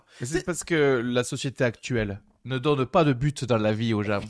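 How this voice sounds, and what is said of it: Put-on southern French accent. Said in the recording (French): “l'accent du sud ... avec un petit accent, ça passe crème”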